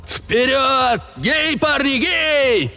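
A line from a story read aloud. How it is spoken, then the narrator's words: Deafening group shouting. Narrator (Russian): все заорали так, что я чуть не оглох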